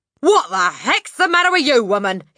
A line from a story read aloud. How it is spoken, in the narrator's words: he shouted